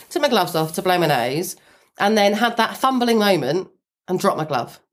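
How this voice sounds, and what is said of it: Snuffly congested voice from cold. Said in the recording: “I've got a cold. You can probably hear I'm quite like snuffly.”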